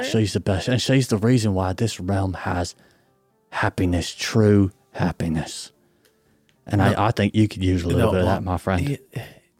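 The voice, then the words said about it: Wild put-on character accent. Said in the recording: “The accent is so wild.”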